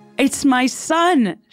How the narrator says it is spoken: she cried

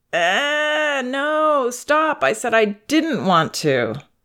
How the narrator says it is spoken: she whines

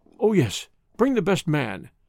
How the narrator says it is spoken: cried Johnson

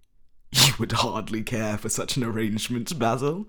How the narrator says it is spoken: cried Lord Henry, laughing

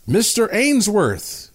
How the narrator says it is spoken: a voice called out

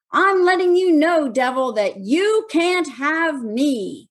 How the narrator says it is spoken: he started yelling from the stage

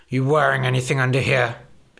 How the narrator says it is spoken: He grunted

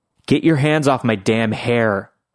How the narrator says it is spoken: I snarled at him

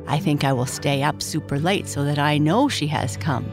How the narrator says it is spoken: Bennett said

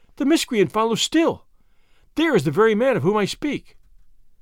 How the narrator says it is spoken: she cried

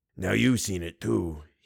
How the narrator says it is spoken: he wheezed

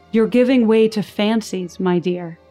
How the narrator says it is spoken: he said

